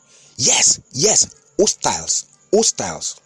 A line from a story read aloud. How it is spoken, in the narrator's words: Excitedly, the Nigerian security chief said